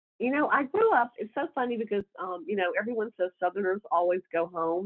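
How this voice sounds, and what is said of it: Southern American accent. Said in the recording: “that great Southern accent”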